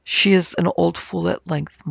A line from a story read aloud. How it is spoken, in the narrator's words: muttered Cowles